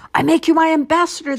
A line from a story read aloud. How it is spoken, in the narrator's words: called out hastily